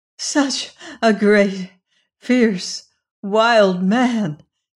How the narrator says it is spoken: she sobbed

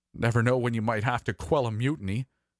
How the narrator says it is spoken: he laughed nervously

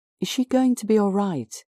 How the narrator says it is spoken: asked anxiously

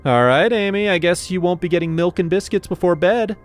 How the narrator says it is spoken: I said loudly

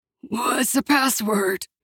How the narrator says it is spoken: A raspy voice came from the dark stairwell

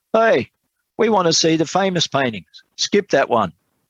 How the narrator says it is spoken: Then a voice at the back of the room shouted

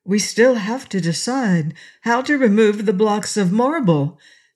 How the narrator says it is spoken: suggested Inga anxiously

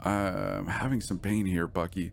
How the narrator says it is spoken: said Allison

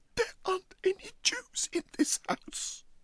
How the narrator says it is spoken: he managed to gasp out

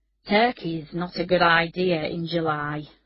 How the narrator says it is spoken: said Ian Whitehead wearily

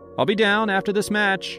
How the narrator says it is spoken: I yelled back

